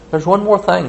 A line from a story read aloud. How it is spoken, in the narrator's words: she said excitedly